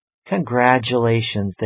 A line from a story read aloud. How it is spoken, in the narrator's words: they said